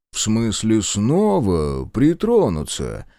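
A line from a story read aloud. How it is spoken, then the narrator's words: Sarcastic drawl. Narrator (Russian): язвительно протянул Оболенский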